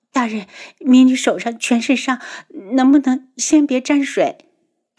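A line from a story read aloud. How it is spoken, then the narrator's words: Pleading. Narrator (Chinese): 宇文天青哀求着道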